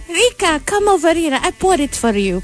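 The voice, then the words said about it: Put-on Russian accent, Anna Delvey. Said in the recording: “may parang Russian accent kasi siya ... smooth transition ng Russian accent”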